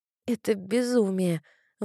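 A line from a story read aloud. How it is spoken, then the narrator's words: Strained forced words. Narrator (Russian): выдавила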